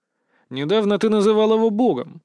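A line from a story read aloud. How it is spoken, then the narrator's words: Snorting. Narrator (Russian): хмыкнул я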